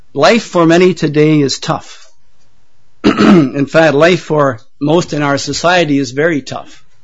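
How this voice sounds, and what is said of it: Hoarse, failing voice. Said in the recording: “I'm losing my voice already”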